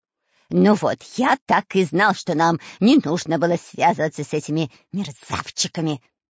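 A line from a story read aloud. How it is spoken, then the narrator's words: Hissed. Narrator (Russian): прошипел Дырка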